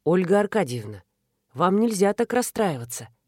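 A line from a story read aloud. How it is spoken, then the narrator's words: Soft. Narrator (Russian): мягко сказал он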